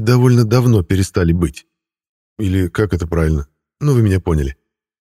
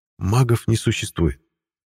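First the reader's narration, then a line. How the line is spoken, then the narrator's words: Soft remark. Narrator (Russian): мягко заметил Ласло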